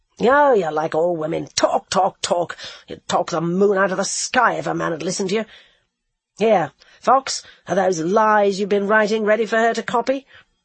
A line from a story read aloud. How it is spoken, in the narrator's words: snarled out